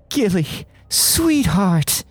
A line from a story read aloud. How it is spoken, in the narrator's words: Imelda wailed